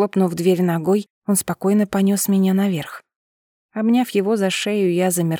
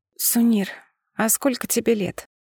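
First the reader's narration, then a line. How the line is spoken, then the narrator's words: Sleepy whisper. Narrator (Russian): сонно шепнула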